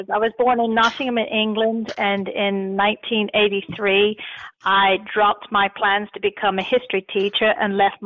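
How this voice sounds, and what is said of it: Foreign accent. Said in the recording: “You have a foreign accent.”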